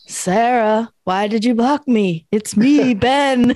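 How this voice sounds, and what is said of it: Eerie ghost-like voice. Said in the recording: “in a ghost voice”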